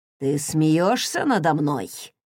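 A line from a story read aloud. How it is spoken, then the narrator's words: Mock-threatening. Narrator (Russian): нарочито угрожающим голосом спросил Крис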